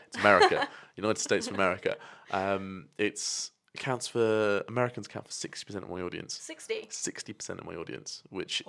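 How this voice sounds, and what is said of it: British accent. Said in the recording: “it must be the British accent.”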